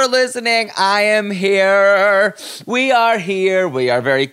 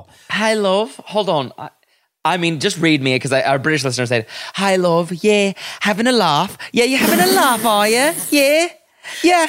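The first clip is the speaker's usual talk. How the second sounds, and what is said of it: Put-on British accent. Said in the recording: “How good is your Brit accent?”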